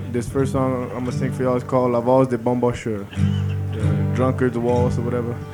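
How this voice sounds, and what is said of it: Tired, worn voice. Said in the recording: “my voice is kind of tired”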